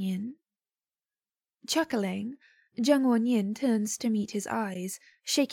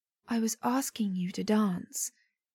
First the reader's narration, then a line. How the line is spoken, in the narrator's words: he whispers, close enough for Zheng Wanyin to feel the stirring of air on his neck